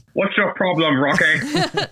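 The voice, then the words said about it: Loud, overly enunciated posh voice. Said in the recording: “he mashed up the Queen of England, Queen Elizabeth, and his mother's telephone voice ... it's a very kind of loud and overly enunciated voice, like this.”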